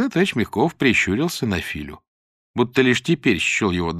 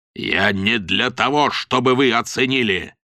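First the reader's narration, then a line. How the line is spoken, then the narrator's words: Barking. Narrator (Russian): рявкнул товарищ Рогачев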